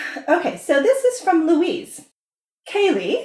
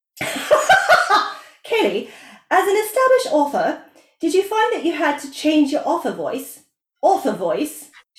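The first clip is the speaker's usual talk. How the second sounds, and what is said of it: Put-on English accent, posh to Cockney. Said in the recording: “I should do this in an English accent ... You started posh and now you're Liza Doolittle.”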